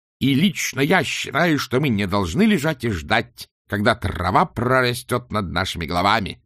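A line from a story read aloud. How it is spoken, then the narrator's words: Roaring. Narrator (Russian): взревел он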